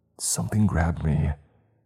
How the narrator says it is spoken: I whispered

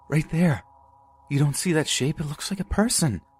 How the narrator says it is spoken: said in a terrified voice

